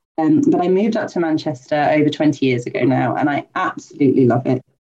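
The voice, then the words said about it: English accent, not Mancunian. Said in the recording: “People might be able to tell from my accent that I'm not a native Mancunian”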